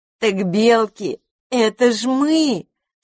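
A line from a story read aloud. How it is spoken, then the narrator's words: Forced out, laughing. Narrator (Russian): Смеясь, выдавила из себя та, что его притащила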